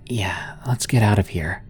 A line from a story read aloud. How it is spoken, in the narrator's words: I quietly replied